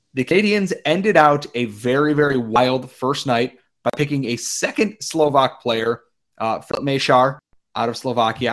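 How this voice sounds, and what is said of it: Slightly hoarse, strained voice. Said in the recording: “my voice is a little shot, I had to yell over the crowd”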